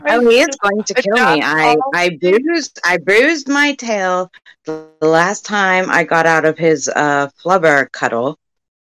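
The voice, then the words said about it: Character voice with put-on accent. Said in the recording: “This accent”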